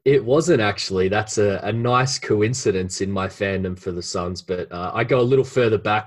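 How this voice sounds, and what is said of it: Australian accent. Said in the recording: “as I'm sure listeners can kind of hear in your accent, you're over there based in Australia”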